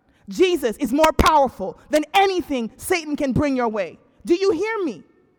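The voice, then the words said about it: Yelling loudly. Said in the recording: “I'm yelling at you. ... I'm yelling so you hear me.”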